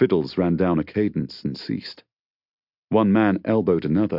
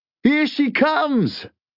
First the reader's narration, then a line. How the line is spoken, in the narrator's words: cried one of his interlocutors with an eager smile